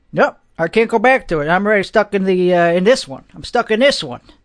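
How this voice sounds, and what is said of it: Slower Long Island / Staten Island accent. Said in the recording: “So let's slow it down a little bit. Let's do this accent. This accent, I can slow down a little bit... From Long Island, from Staten Island.”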